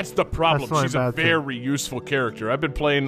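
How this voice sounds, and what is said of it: Usual voice. Nothing is said of it.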